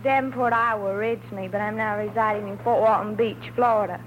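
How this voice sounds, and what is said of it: Noticeable regional accent. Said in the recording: “You sure got the accent.”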